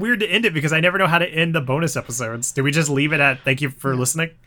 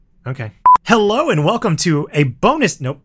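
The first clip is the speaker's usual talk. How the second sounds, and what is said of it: Suddenly loud presenter voice. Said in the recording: “you just got really loud when you started ... I'm using my podcast voice now”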